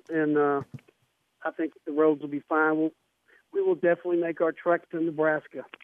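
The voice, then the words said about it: Slight Southern US accent. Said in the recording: “that got that little southern touch to you there ... I didn't lose my southern accent”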